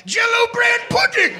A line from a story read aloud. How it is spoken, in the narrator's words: when she orgasmed, she would yell out